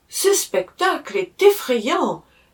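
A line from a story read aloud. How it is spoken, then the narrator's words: Exclaiming. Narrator (French): s'écria-t-elle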